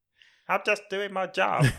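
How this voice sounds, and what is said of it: Put-on British villain accent. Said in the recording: “Is that your British accent? ... it's my thin, bold British guy accent”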